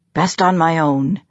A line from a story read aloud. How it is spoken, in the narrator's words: he growled